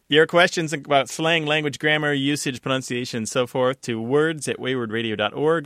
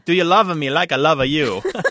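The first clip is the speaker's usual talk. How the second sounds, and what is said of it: Put-on Italian accent. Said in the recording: “You have to say it in an Italian accent.”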